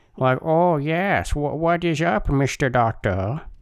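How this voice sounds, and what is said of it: Put-on generic Chinese accent. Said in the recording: “My generic Chinese accent.”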